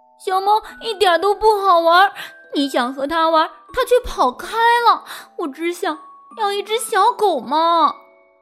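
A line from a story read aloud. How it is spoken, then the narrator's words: Crying out. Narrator (Chinese): 鲁迪哭喊道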